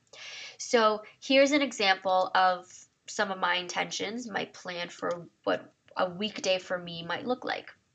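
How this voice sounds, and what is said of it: Raspy voice. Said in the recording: “I don't know if my voice is getting raspier as I'm recording”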